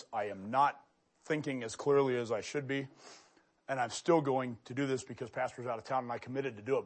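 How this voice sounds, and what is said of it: Hoarse, strained voice. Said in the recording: “I am losing my voice.”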